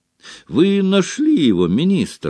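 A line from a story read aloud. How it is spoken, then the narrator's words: Exclaiming. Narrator (Russian): воскликнул Том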